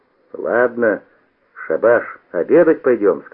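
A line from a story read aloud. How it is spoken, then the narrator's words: Stern. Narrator (Russian): сказал строго Науменко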